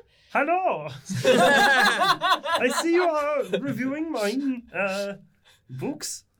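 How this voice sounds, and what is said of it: Character voice with put-on accent. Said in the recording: “With a legally distinct accent.”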